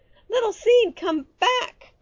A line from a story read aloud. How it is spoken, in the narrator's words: cried Little Fox when he saw the farmer take his friend away